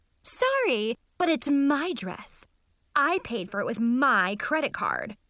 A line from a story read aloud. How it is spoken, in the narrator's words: Mackenzie yelled